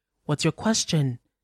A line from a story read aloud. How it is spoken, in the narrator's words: Mama prompted, quickly